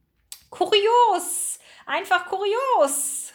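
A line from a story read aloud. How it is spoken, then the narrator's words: Call. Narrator (German): rief Ratilla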